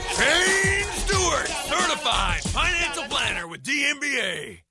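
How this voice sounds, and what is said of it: Hyped monster truck announcer voice. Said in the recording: “That was very good hype. ... That was my monster truck announcer voice.”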